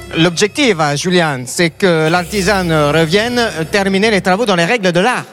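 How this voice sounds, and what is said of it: Put-on Italian accent in French. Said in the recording (French): “Je voudrais un accent italien. ... C'est pas mal, c'est pas mal.”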